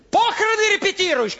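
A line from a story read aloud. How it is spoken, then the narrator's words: Shouting from above. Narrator (Russian): кричала сверху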